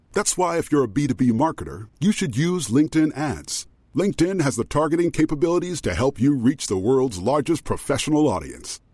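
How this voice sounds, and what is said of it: Very deep voice. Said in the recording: “As a person with a very deep voice”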